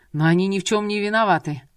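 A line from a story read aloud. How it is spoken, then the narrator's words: Exclaimed. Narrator (Russian): воскликнул Энвер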